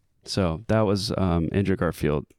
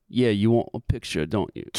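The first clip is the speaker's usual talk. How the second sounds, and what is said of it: Put-on British accent. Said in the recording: “Do the accent. ... Oh, the British accent?”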